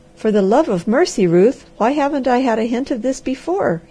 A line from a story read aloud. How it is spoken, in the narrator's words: he cried